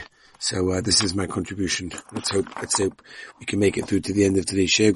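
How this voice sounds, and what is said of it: Worn-out, strained voice. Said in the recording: “my voice is finished. What can I tell you? My voice is completely finished.”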